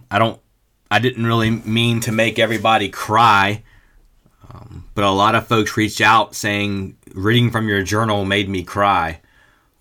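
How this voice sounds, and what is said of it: Rough voice, sounds like a cold. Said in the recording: “I'm fighting a little bit of a cold ... my voice is jacked up, and I have a little bit of a cold”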